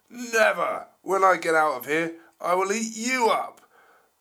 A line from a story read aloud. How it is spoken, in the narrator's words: the T-Rex just roared